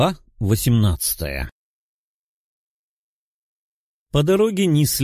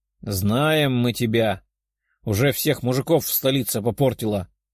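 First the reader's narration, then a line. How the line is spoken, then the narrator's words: Grumbled, female dwarf. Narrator (Russian): проворчала гномша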